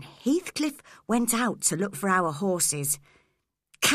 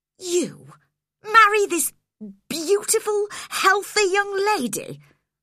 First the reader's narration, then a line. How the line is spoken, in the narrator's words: I cried